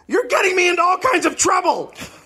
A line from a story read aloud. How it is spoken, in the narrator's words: He suddenly yelled at Catherine